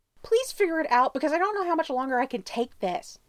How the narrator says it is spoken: he yells back instead

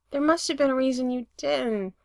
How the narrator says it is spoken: Brendan says miserably

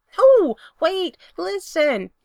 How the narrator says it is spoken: Spencer hollers

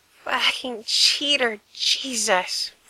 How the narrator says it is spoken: Frank groaned when Gerard licked the warm, bruised skin there

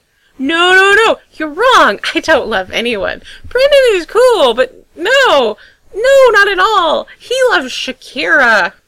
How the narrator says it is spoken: Gerard repeats, and then more frantically

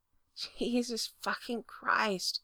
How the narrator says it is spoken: Frank muttered

